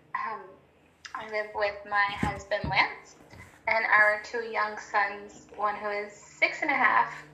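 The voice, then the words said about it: American accent. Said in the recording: “can probably tell I have an American accent. I am from Montana.”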